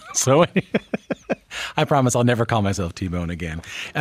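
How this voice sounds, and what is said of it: Newfoundland accent. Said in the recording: “as you might be able to tell from my accent ... where I'm from in Newfoundland and Labrador”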